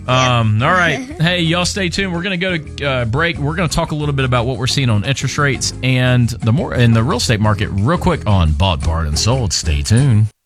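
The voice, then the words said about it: Radio announcer voice. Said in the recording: “Radio voice.”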